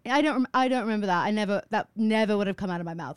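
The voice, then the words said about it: Put-on British accent. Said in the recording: “am I talking in a British accent?”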